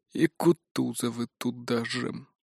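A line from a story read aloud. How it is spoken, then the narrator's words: Muttered. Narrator (Russian): пробормотал Николай Семенович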